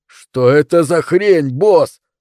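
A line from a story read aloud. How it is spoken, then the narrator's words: Excited shout. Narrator (Russian): не сказал, но взволнованно крикнул Джером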